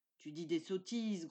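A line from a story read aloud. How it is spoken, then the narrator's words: Growled. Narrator (French): gronda Jason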